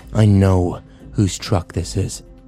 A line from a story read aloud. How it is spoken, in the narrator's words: Kyle growled